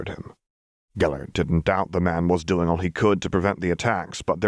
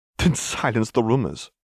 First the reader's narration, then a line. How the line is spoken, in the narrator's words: Gellert sighed irritably